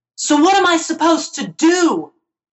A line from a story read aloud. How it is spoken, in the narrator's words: Jeremiah screamed